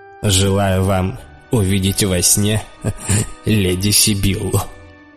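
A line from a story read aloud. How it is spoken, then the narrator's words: Laughing. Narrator (Russian): засмеялся Лючио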